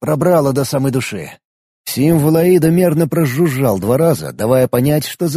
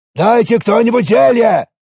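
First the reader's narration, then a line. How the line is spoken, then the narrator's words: Interpreter shouting in Alvish. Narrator (Russian): кричал на альвийском переводчик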